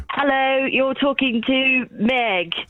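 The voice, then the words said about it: Put-on British accent. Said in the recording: “do I need to do it in a British accent?”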